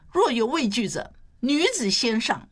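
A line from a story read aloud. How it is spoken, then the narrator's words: Loud voice. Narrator (Chinese): 他高声说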